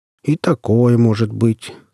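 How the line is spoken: Calm. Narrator (Russian): спокойно ответил Потап

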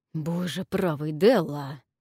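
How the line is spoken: Hissed. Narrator (Russian): прошипел Джим

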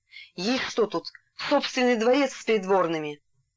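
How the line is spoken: Hoarse wheeze. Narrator (Russian): Саша просипел

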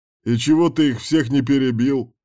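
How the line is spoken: Short chuckle. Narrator (Russian): хохотнул Кирк

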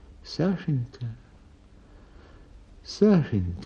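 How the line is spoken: Sad. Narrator (Russian): говорит она печально

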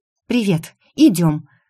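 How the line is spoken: Breathless exhale. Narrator (Russian): выдохнула я

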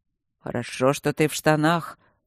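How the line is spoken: Muttering. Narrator (Russian): пробурчал он

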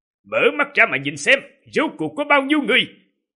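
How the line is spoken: Loud commanding shout. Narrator (Vietnamese): Quân Mạch quát lớn

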